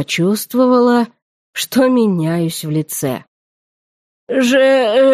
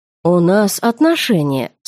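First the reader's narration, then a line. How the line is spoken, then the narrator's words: Calm retort. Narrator (Russian): спокойно парировал Вайерт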